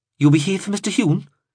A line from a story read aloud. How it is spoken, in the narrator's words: asked brightly